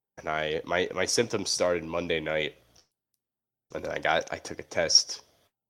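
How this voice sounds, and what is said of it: Stuffy, congested, tired voice. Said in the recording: “you can hear it in my voice. I'm just stuffy and tired.”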